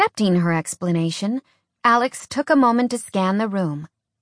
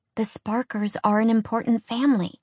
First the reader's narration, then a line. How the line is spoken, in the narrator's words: she said in a hushed voice